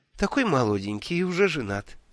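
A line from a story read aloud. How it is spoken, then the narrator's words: Tender murmur, woman. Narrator (Russian): ласково бормотала женщина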